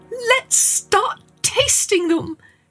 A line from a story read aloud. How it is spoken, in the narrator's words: she cried